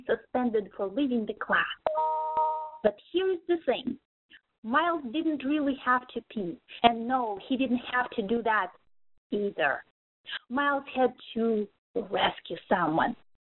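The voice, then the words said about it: Russian accent. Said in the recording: “I'm originally from Russia ... my authentic Russian accent”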